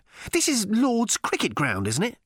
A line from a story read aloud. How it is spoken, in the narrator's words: snapped Arthur